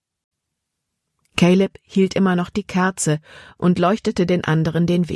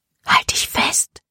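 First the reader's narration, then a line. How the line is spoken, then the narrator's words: Whispered. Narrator (German): flüsterte Libby Serena zu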